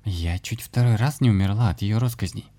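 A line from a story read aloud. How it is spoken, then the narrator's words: Theatrical sigh. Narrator (Russian): театрально вздохнула Аня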